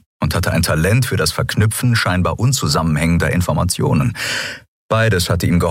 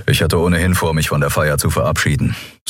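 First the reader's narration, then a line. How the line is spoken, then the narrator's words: Dry remark. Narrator (German): sagte Telios trocken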